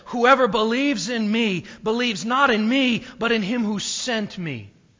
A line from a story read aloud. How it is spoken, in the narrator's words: Jesus cried out and said